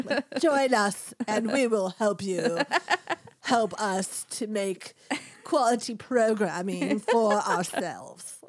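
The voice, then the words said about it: Put-on nondescript vaguely posh accent. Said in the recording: “I'm trying to do my nondescript accent from Schitt's Creek ... a nondescript accent that doesn't offend any country ... that weird, like, fake Madonna accent”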